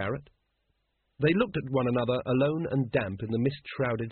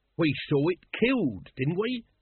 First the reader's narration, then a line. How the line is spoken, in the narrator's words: said Nobby urgently